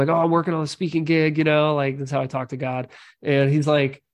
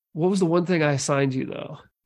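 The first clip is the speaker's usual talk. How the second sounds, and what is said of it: Lower, measured, directive tone. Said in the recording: “tone of voice ... lower ... Measured, super. A little bit directive tone of voice. ... command”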